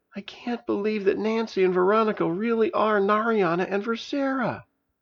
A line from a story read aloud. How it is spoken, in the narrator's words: Tyler whimpered